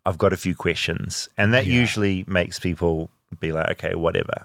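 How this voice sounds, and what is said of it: New Zealand accent. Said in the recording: “the accent does help me a lot in this country ... I'm from New Zealand”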